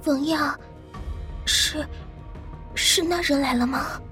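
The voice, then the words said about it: Whispered, nervous question. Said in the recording (Chinese): “轻轻扯了一下冯耀的衣角，眼睛还四下的偷偷看着，小声问道”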